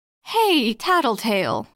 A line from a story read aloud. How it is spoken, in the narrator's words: called out, my voice a touch strained